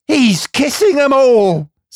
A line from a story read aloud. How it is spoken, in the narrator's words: screamed the enthusiastic little gentleman